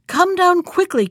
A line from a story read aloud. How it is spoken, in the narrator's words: cried Bluebeard